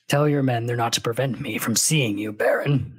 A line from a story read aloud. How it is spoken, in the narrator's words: the Sardaukar growled